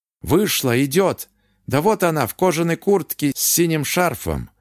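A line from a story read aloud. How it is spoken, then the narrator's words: Loud fearful hiss. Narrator (Russian): Ушиц громко шипел в телефон, боясь, что Ирина его услышит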